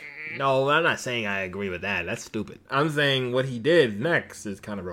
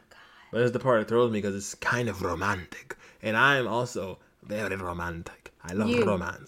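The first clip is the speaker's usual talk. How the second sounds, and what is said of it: Put-on accent. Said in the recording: “shut up with the accent. ... It's making me cringe.”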